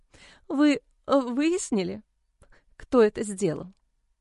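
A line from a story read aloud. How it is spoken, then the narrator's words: Sobbing question. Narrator (Russian): Сквозь всхлипывание спросила мама Джо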